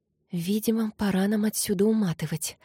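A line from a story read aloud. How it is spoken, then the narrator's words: Gentle reassuring whisper. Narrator (Russian): прошептала Кари, чтобы не очень напугать девочку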